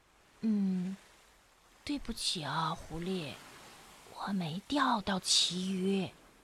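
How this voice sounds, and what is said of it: Very quiet, tiny voice. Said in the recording (Chinese): “大狼低着头，用比蚊子还小的声音说”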